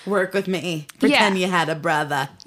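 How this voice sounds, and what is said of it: Attempted Long Island accent. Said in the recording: “I feel like I'm trying to give a Long Island accent. I'm not sure if it's working out here.”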